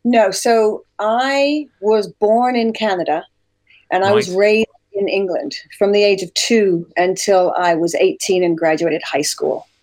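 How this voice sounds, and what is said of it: Hybrid Canadian-British accent. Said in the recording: “I'm hearing more British ... when you say job ... my natural accent, as you can hear right now, is like, it's a bit of a hybrid”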